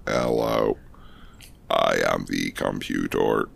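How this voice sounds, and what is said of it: Robotic computer voice. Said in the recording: “That was a robot voice... Did it sound like one?... A little bit... It's very computery.”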